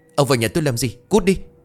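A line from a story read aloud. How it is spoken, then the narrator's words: Startled scream. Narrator (Vietnamese): Cô Lại giật nảy mình, cô hét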